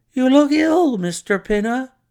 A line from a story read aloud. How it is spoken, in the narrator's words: he exclaimed